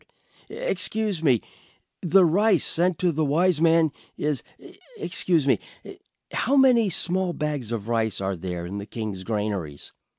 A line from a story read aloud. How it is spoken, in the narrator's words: stammered